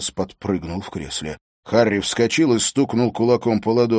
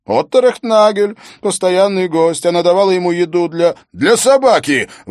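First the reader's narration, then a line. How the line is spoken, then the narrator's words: Shouting. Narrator (Russian): выкрикнул Харри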